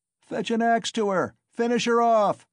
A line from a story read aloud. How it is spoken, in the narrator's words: shouted a third